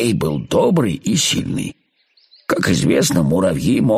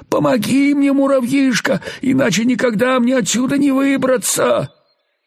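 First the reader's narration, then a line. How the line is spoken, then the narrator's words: Frightened plaintive pleading. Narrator (Russian): Паук был очень испуган и продолжал умолять жалобным голосом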